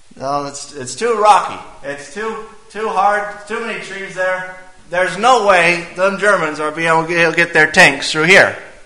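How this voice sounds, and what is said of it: Attempted French accent. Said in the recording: “I'm going to try to do a French accent”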